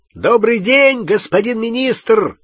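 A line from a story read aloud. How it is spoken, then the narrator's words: Shouting. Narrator (Russian): крикнул Перси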